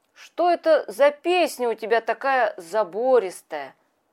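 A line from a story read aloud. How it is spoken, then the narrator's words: Plain. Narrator (Russian): спросил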